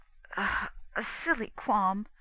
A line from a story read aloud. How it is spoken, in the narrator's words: said Mevrian faintly